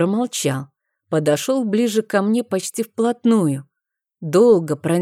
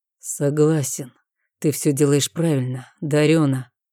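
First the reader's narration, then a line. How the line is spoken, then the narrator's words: Muffled. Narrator (Russian): сказал он глухо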